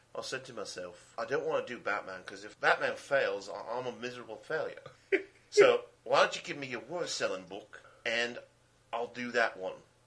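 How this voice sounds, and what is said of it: Put-on English accent, imitating someone. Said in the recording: “Now, do the English accent.”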